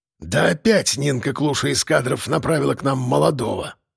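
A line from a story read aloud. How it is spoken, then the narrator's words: Grumbled. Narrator (Russian): пробурчал Жорич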